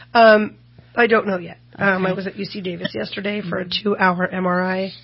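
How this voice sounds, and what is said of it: Weak, strained voice. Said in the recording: “my voice is out right now”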